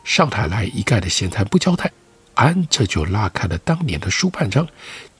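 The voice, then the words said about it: Shandong Luxi accent storytelling. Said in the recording (Chinese): “再以纯正的山东鲁西口音开讲”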